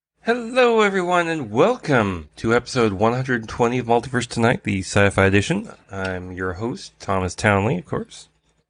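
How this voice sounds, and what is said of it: Deeper, bassier allergy-affected voice. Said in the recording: “if I sound different, if I sound a little bassier, well, spring has a nasty habit of doing that to me ... it's allergy season, so yeah, it really kind of hit me hard”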